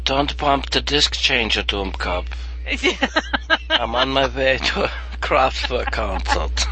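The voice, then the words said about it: Put-on German accent. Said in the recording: “What if that was Hitler saying that? ... I can't hear the accent without thinking about ... big Lebowski.”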